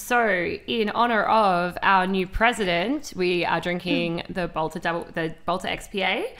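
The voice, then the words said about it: Congested, husky voice. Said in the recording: “got me hay fevery. I'm like so snotty. ... My voice is very sexy, I suppose. ... Husky. ... Sultry.”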